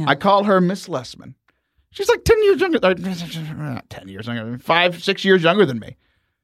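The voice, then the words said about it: Southern American drawl. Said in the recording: “I'm Southern ... my Southern drawl”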